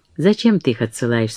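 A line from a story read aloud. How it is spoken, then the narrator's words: Plain. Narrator (Russian): спросила она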